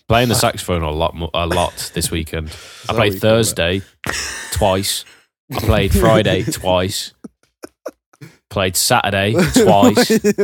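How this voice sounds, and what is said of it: Sick, rough-throated voice. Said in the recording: “I'm pretty ill. You could probably hear it in my voice... my throat's just fucked”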